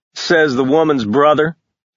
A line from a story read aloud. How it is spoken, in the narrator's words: Ash snorted